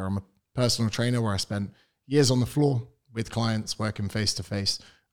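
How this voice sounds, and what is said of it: British accent. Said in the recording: “the accent, I am British. I'm from the United Kingdom.”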